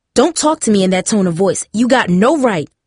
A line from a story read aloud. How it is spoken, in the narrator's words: Mom fumed, with anger